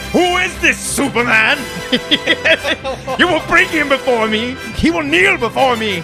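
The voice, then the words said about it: Yelled impression of another person's voice. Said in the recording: “my best Terrence Stamp impersonation, yelling”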